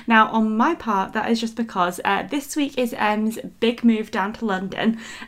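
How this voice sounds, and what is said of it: Slightly croaky, not warmed-up voice. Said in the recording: “sounding a little bit worse for wear today ... my voice is still not fully warmed up for the day, so I feel like it's sounding a little bit croaky”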